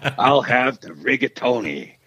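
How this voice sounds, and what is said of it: Imitates another person's voice, weakly. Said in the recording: “your Pacino impression ... it wasn't as good”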